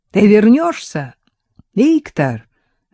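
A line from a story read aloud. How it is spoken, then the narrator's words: Loud question. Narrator (Russian): громко спросил Алеша Тягунов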